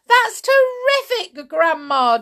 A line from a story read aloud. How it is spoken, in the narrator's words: George cried